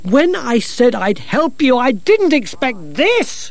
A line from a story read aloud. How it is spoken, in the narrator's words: shouted Gerda